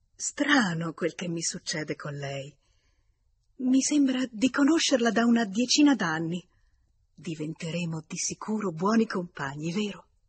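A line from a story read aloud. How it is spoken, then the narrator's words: Astonished young woman exclaiming. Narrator (Italian): la giovane signora tutta stupita esclamò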